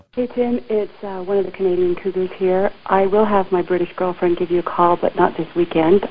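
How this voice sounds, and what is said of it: Sexy-sounding voice. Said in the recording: “that's a sexy voice.”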